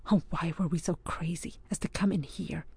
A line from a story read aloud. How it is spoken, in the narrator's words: murmured under his breath